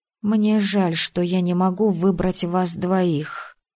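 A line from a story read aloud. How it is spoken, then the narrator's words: Quiet. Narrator (Russian): тихо сообщила я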